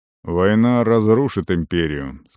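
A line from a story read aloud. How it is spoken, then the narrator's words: Gloomy. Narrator (Russian): сказал Арон мрачно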